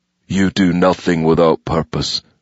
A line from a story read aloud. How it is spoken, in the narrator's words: he said stiffly